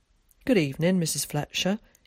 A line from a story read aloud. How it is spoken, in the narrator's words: he heard Tom say in a surprised tone